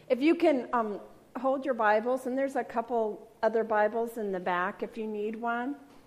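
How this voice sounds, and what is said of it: Hoarse, froggy-throated voice. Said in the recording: “I have a frog in my throat”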